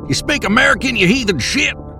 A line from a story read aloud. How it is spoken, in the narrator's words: shouted over the sound of the river that separated us